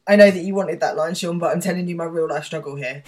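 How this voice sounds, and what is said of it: Husky voice. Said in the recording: “I've got a bit of a cough, so I sound husky today.”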